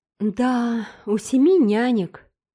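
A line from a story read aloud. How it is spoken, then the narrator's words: Guilty sigh. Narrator (Russian): вздохнула Марила, слушавшая этот разговор с довольно виноватым видом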